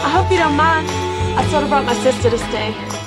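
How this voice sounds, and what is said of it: Put-on accent. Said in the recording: “Shannon Elizabeth's accent”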